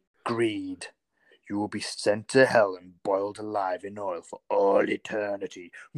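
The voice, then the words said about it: Spooky scary reading voice. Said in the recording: “I'll read one in scary ... the scary voice”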